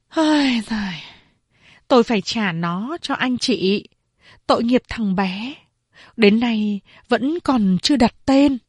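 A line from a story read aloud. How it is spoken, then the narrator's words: Sighing mother. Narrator (Vietnamese): Mẹ tôi thở dài, nói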